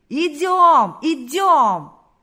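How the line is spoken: Many voices shouting. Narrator (Russian): Закричали все, кто еще держался на ногах

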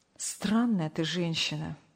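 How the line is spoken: Sigh. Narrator (Russian): вздохнул Сергей Павлович

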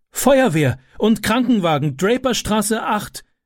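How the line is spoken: Shouted. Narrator (German): rief

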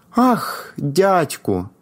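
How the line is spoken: Joyful exclamation. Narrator (Ukrainian): вигукнув Палко, стриваючи від радощів

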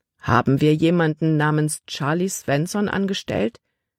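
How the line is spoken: Plain question. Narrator (German): fragte Kapitän Norstad

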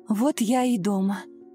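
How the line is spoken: Relieved exhale. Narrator (Russian): с облегчением выдохнула Ирина

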